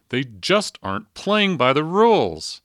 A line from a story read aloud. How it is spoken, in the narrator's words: When his hoped-for answer didn't appear, he shouted